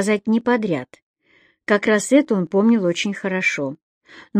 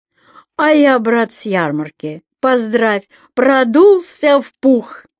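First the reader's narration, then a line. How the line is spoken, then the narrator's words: Loud and expressive. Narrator (Russian): Ваня начал громко с выражением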